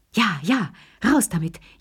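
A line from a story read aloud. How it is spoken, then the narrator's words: Gasping old voices. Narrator (German): japsten die drei Alten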